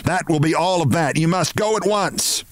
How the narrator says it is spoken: she shouted

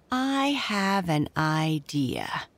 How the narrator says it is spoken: said Derry Drew slowly

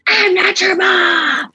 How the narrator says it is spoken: would scream

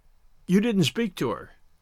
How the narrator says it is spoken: He said in a colorless voice, half as a question, half as a reproach

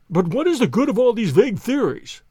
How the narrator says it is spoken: cried the banker impatiently

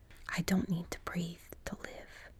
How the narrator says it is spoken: Zig whispered in her ear

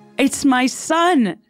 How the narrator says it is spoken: she cried

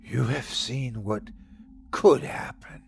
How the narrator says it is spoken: whispered Sukaz

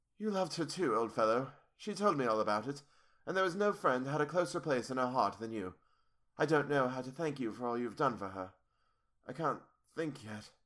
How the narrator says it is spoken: saying huskily

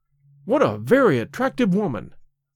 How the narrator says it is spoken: I exclaimed

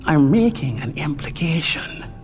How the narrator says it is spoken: Jane said, keeping his voice just about the level of a whisper

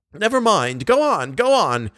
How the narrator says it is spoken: exclaimed Richard and Moncharmin, suddenly greatly interested

